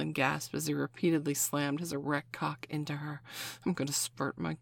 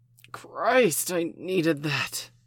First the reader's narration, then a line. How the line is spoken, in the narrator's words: he gasped